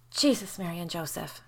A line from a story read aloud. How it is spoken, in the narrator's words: Jamie breathed